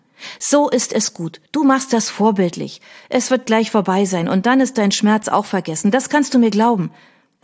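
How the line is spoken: Firm explaining voice. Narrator (German): erklärte sie mit fester Stimme

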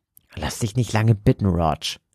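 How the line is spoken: Hiss. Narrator (German): zischte Joseph

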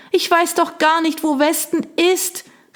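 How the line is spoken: Shout lost in wind. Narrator (German): rief sie, aber der Wind riss ihr die Worte von den Lippen

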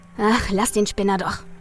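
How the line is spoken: Muttering. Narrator (German): murmelte Andy

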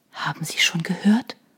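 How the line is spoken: Barely audible whisper. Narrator (German): flüsterte sie kaum hörbar

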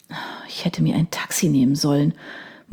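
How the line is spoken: Quiet mutter to herself. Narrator (German): murmelte sie leise vor sich hin

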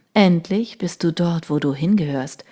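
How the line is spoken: Tender whisper. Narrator (German): flüsterte er ihr zärtlich zu

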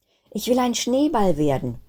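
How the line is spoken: Called out. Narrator (German): rief Kristallinchen

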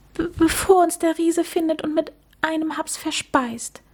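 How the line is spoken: Stammer. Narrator (German): stotterte

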